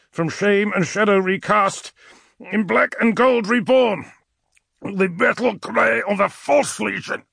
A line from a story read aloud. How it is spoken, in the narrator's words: Ulrich grunted